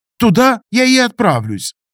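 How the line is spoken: Resolute declaration. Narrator (Russian): решительно заявил лис

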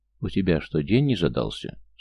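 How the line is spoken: Calm question. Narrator (Russian): Спокойно поинтересовался Крест

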